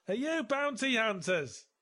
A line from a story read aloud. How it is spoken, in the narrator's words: he yelled